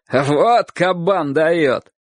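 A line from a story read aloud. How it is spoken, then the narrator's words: Laughing adults shouting. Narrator (Russian): многие взрослые смеялись его выходке и кричали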